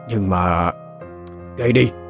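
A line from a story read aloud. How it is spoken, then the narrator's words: Stammering physician. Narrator (Vietnamese): Đại phu lắp bắp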